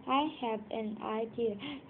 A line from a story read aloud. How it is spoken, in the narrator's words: said the donkey